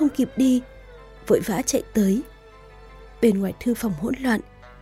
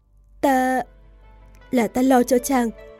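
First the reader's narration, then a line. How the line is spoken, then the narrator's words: Flustered stammer. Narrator (Vietnamese): Triệu Triệt đột nhiên bị hỏi như vậy, lắp bắp nói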